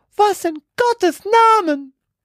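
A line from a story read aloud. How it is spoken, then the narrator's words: Horrified shriek. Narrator (German): kreischte sie und sackte vor Entsetzen auf die Knie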